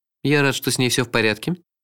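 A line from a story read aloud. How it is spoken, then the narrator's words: Dry tone. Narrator (Russian): сухо сказал сэр Корво Блим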